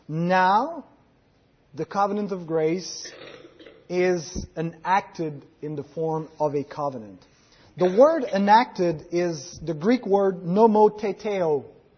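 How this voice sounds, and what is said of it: Greek-English accent with French twist. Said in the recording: “So this is my Greek-English accent. ... With a little French twist in it. ... we'd say French-Canadian”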